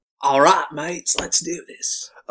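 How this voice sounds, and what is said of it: Bad put-on Australian accent. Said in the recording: “a bad Australian accent”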